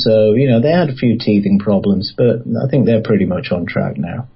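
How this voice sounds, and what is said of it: English accent. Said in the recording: “your accent is English.”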